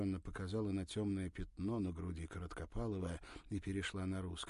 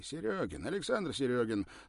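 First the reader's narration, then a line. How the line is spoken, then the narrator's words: Hurried speech. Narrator (Russian): торопливо сказал тот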